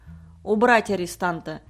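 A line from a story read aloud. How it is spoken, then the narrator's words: Sharp command. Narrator (Russian): резко приказал мэр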